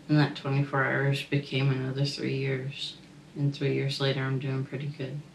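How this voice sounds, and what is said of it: Slight Canadian accent. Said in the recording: “You have kind of a Canadian accent, don't you?”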